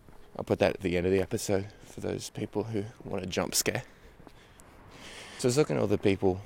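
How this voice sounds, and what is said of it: Usual voice. Nothing is said of it.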